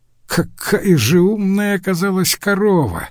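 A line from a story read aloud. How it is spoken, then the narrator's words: Laughing. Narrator (Russian): засмеялся бакалавр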